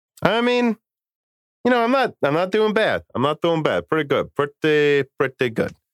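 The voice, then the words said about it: Mobster accent mixed with another's voice. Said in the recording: “That's a weird combination of like a mobster accent and Larry David.”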